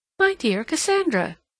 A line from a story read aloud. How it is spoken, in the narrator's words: she exclaimed